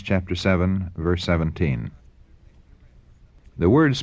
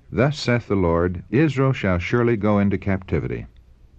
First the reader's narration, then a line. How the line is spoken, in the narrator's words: the prophet firmly responded